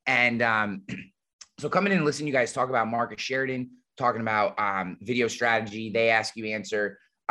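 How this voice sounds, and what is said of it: Scratchy, low late-night DJ voice. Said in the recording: “if I sound a little scratchy, it's because my allergies are like off the chain ... I have my late night FM DJ voice going”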